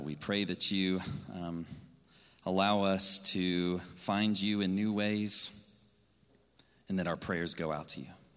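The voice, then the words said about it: Shaky voice. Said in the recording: “My voice is a little shaky.”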